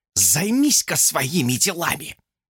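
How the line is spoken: Fervent whisper. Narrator (Russian): Горячо прошептала она

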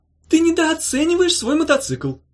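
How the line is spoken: Shouted reply. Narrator (Russian): крикнула в ответ Улита

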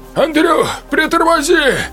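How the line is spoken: Breathless shout from behind. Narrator (Russian): крикнул сзади Виктор Лебедев, тяжело дыша

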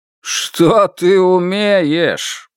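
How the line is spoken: Mocking repetition. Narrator (Russian): повторил голос теперь насмешливо

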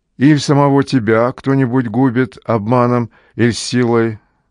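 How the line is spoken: Shouted from a cave. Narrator (Russian): из пещеры в ответ закричал Полифем многомощный

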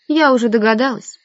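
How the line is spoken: Bored voice. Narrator (Russian): скучным голосом сказала Наташа

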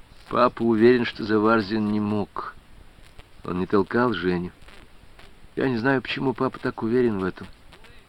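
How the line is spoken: Quiet. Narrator (Russian): Людмила тихо сказала

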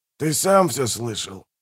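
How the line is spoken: Grumbling mutter. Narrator (Russian): буркнул Манфред

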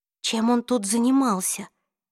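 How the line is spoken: Breathless exhale. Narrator (Russian): выдохнула Клэри

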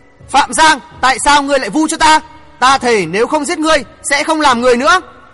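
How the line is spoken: Shocked furious yell. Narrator (Vietnamese): Mộ Dung Đại biến sắc hét lên

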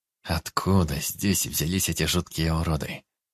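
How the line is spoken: Gloomy old man's musing. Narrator (Russian): мрачно размышлял дед

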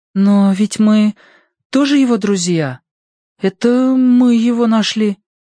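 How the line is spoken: Hesitant objection. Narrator (Russian): неуверенно возразила Прошка

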